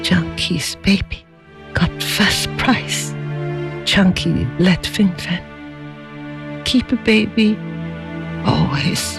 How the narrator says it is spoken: feebly raised her head and, looking straight into her husband's eyes, said

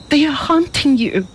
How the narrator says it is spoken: she cried

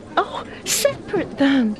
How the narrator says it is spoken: pleaded Fing Fan

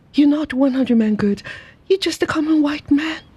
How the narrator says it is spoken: with swift anger, she cried

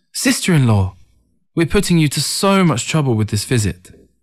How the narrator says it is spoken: Ting eagerly exclaimed

